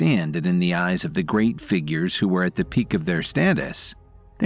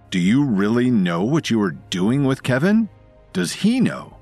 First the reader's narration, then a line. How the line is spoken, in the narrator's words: Matthew Tames couldn't help raising his voice